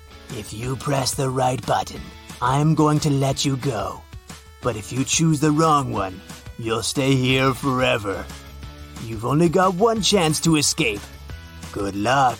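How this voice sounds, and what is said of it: Creepy character voice. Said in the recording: “The creepy voice explained”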